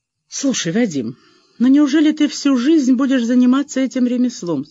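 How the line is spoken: Plain. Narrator (Russian): спросила Марина

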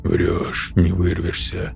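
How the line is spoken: Muttered. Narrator (Russian): пробормотал алгоритмист

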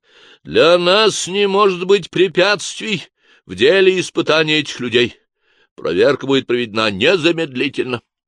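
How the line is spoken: Loud declaration. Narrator (Russian): заявил громко

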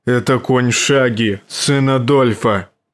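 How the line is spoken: Growled. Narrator (Russian): рыкнул он

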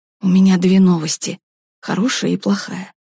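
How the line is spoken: Whisper. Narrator (Russian): шепотом сообщил Пашка

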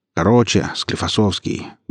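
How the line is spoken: Muttered from a crowd. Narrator (Russian): буркнул кто-то из середины ряда

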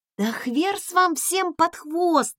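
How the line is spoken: Groaned. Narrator (Russian): простонала я

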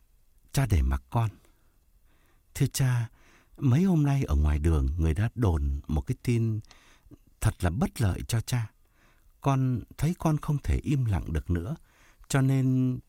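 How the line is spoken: Hesitant stammering. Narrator (Vietnamese): Thông ấp úng nói

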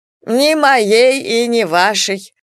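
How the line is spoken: Chuckling, loud hiccup. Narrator (Russian): хохотнул доктор и снова громко икнул

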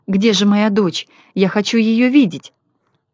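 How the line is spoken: Joyful exclamation, mother. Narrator (Russian): Бедная мать обрадовалась и воскликнула

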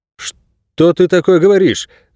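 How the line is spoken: Exclaiming. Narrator (Russian): воскликнул Найрод

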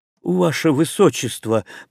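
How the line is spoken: Wheezing. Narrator (Russian): просипел Ристо

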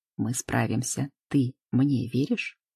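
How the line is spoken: Tender whisper in ear. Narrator (Russian): нежно шепчет на ушко

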